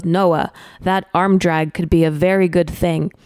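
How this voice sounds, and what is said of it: Imitated Brazilian accent. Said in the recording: “in his Brazilian accent”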